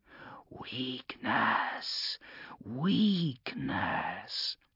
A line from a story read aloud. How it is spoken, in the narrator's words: hissed in a voice of running sand